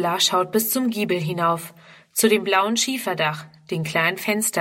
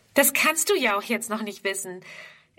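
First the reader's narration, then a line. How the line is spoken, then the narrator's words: Laughing reply. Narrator (German): erwidert Fridrun lachend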